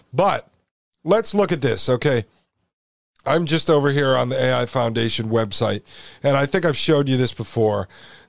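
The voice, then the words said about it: Tired, strained voice giving out. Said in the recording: “this is like my fourth or fifth hour recording today, so my voice is starting to go”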